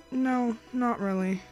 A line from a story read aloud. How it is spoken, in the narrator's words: she sighed